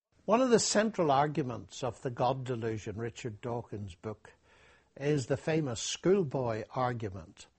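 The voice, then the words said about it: Thick Irish accent. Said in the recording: “He's got a thick Irish accent”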